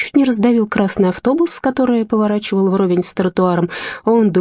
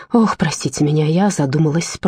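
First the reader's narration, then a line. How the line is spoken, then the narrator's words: Mumbled apology. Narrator (Russian): пробормотала, извиняясь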